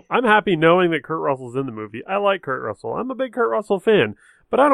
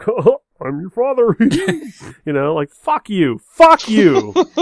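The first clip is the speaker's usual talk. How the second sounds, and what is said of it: Goofy dad character voice. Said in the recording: “Kurt Russell impression, man, it's great. ... your dad impression, like everybody's dad? ... that was just goofy dad impression, not necessarily Kurt Russell”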